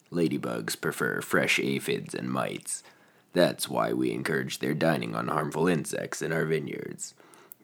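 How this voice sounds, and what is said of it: Sick, congested-sounding voice. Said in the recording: “that amazing recording in your sick voice”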